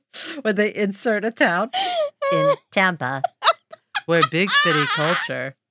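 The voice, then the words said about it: Robotic voice. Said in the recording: “robot voice”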